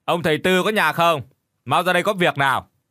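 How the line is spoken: Loud calling. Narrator (Vietnamese): chúng lớn tiếng gọi

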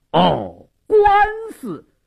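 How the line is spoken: Deliberately loud. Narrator (Chinese): 矿中故意大声说道

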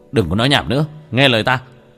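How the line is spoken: Sharp shout. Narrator (Vietnamese): Tiểu Thất quát lên một tiếng

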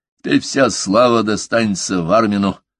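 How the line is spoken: Muttering. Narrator (Russian): пробурчал он

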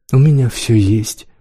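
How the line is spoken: Sighing. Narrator (Russian): Дарси вздохнула

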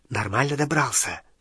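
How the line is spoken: Whispered question. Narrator (Russian): шепотом спросила Гермиона

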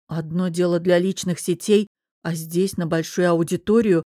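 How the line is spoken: Hesitant, grumbling explanation. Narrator (Russian): помявшись, пояснила я, буркнула

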